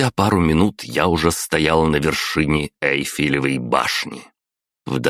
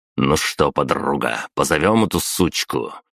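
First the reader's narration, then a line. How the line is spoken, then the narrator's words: Smirking grunt. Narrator (Russian): хмыкнул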